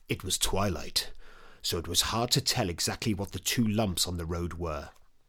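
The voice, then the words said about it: Audiobook narration voice. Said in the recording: “in my audiobook voice.”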